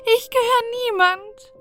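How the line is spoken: Sobbing. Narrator (German): schluchzte wieder

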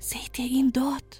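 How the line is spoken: Whisper. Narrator (German): flüsterte Balte

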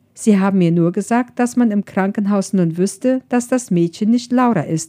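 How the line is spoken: Plain. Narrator (German): sagte Colleen

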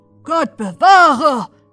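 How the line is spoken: Growling. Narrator (German): knurrte der andere

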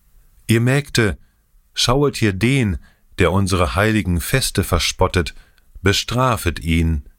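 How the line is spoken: Loud call down valley. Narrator (German): rief mit lauter Stimme ins Tal hinab

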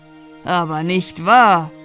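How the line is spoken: Calling out. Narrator (German): rief

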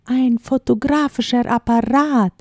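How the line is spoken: Calling out. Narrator (German): rief jemand

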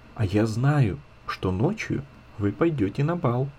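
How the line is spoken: Little girl's very soft whisper. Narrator (Russian): маленькая Ида шепнула им тихо-тихо

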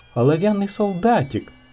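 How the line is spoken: Loud exclamation. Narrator (Russian): кто-то громко воскликнул

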